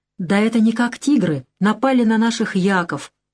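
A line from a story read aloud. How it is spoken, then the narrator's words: Exclaiming guide. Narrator (Russian): воскликнул один из проводников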